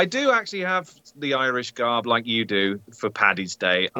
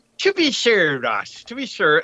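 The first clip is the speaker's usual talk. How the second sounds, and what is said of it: Exaggerated stereotypical Irish accent. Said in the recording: “I'm gonna rock some stereotypical, let's call it what it is, racist Irish terrible accent.”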